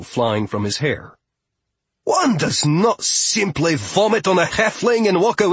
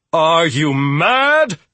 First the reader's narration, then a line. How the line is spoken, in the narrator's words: She yelled at Fia